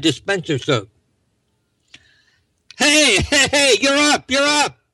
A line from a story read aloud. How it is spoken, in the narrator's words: Someone hollered at Johnny